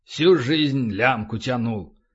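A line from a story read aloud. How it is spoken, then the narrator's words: Grumbled. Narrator (Russian): проворчал Полубой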